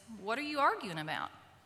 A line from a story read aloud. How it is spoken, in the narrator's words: very calmly and says